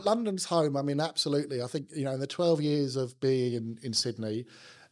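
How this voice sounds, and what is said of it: South London accent. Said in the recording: “there's still very, very little, zero Australian accent ... It's not strong Aussie, for sure ... my South London accent”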